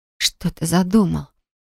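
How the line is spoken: Whisper. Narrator (Russian): прошептала я

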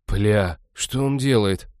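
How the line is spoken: Shocked breath. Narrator (Russian): потрясенно выдохнул Натан

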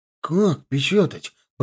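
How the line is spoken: Mumbled. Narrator (Russian): пробормотал он

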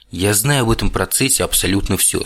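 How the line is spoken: Calm. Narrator (Russian): спокойно продолжил вампир

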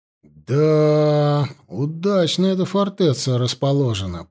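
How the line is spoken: Respectful drawl. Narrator (Russian): протянул он уважительно

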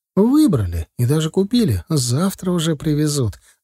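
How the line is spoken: Joyful announcement. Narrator (Russian): радостно сообщила жена

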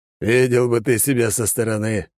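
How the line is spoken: Wry grunt. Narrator (Russian): хмыкнул ниндзя

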